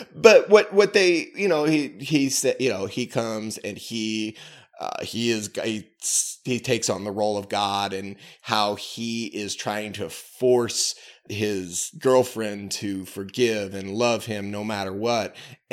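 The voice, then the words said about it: Canadian and Missouri-tinged accent. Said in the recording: “Sometimes the Canadian Missouri accent may not cross when you're hearing me.”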